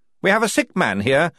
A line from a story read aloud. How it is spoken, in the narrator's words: he snapped to the astonished guards